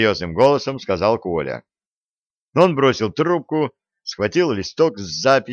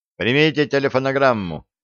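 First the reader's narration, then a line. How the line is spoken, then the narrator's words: Plain. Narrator (Russian): ответил голос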